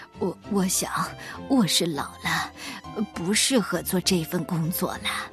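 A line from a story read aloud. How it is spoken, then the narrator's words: Soft, apologetic old voice. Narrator (Chinese): 水壶爷爷连声道歉，轻声地说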